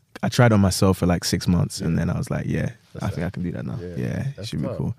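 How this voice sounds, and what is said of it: Speaks with a Nigerian accent. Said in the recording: “we in the UK with y'all. Like, as y'all hear, my man's got an accent ... Nigerian”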